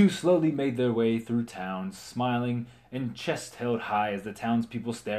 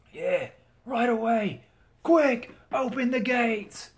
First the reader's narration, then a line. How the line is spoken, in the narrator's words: the guard yelled, in awe of what he was seeing